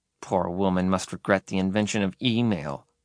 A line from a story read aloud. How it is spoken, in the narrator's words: muttered Derek